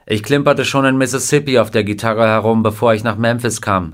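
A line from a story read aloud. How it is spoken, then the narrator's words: Plain. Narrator (German): sagte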